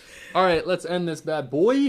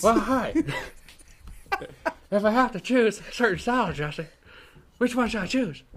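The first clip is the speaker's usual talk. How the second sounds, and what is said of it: Imitates another person's voice. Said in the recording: “That was a Harry Carey impersonation”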